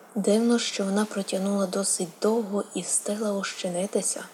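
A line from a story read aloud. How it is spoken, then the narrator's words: Gloomy voice breaking silence. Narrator (Ukrainian): сказав похмурим голосом, розриваючи мовчання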